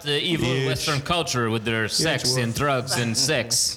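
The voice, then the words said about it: Unplaceable generic non-American accent. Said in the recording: “I just cannot identify ... accent ... It might be the perfect general non-American accent.”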